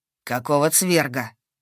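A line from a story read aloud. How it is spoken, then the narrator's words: Vicious growl. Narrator (Russian): прозвучало рычание, такое злобное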